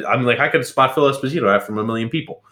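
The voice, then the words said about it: Put-on accent imitating another person. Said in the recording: “What was that accent you were trying to do there? ... I was trying to impersonate Phil Esposito's impersonation”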